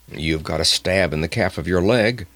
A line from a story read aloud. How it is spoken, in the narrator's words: he growled